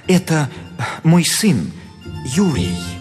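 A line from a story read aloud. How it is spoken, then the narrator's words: Answered in guilty voice. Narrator (Russian): Репин виноватым голосом отвечал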